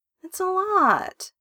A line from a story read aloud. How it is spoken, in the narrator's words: he whines